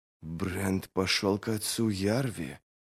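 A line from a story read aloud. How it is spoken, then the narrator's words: Hoarse rasp. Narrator (Russian): прохрипела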